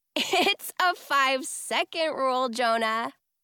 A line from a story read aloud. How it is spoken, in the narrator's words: I say with a laugh